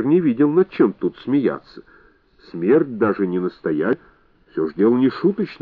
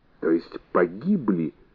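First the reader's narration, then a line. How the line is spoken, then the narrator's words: Ominous giggling. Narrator (Russian): сказала Бэби, снова зловеще хихикнув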